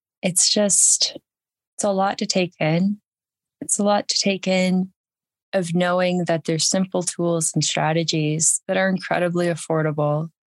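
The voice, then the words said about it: Audibly changed, emotional voice. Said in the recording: “you can probably hear the change in my voice.”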